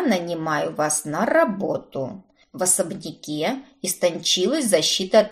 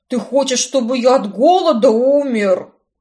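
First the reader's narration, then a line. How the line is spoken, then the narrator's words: Displeased groan. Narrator (Russian): Простонал Картер, явно недовольный растратами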